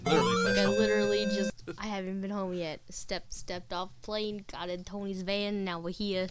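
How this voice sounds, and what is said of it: Thick New Jersey accent. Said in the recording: “her Jersey accent is thick tonight”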